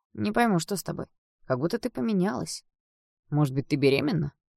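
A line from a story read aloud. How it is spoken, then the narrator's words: Casual everyday tone. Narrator (Russian): Он задал этот вопрос совершенно обыденным тоном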